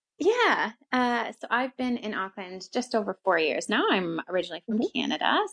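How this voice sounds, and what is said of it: Canadian English accent. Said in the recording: “you don't have a Kiwi accent ... that's the Canadian accent, not American.”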